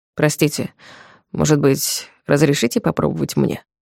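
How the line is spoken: Quiet, Polish, traveler. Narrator (Russian): Тихо произнес по-польски пальмирский проезжий

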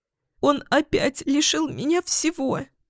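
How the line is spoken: Stammering through sobs. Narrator (Russian): Заикаясь и постоянно всхлипывая, произнесла Ксения

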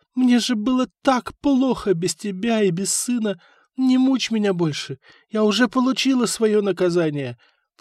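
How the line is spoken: Sobbing. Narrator (Russian): всхлипывала она

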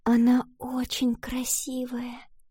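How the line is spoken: Reverent whisper. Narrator (Russian): с благоговением прошептала Валентина

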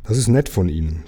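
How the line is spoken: Plain. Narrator (German): sagte Lukas

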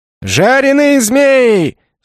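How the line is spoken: Barker yelling louder. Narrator (Russian): С новой силой завопил Зазывало

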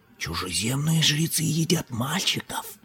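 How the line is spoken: Whisper. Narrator (Russian): прошептал Чхолал

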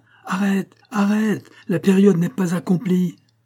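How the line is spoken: Bellowing. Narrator (French): tout en vociférant

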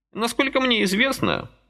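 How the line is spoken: Thoughtful old man. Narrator (Russian): задумчиво откликнулся дедок

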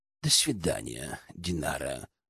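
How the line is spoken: Mumbling. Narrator (Russian): пробормотал Гельд

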